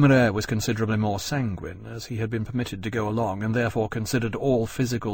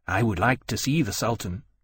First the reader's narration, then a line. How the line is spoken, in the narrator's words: he said